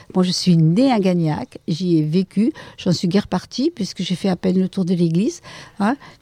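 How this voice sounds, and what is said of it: Regional southern French accent. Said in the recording (French): “avec le bel accent ... avec cet accent, vous pouvez bien imaginer que je ne suis pas de Belgique ou du nord de la France”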